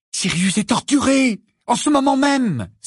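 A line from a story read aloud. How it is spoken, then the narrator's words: Urgent exclamation. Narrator (French): s'écria Harry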